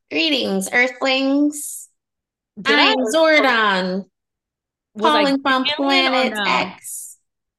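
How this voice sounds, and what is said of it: Put-on alien character voice. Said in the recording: “put on your alien voice”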